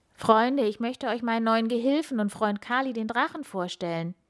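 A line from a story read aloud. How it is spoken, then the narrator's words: Gentle smiling call. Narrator (German): Sanftmütig lächelt Bauer Pop und ruft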